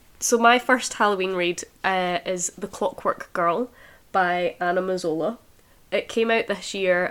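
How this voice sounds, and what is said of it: Voice off, recovering from illness. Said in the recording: “I'm recovering from COVID. So if my voice is off, it's because I didn't have one.”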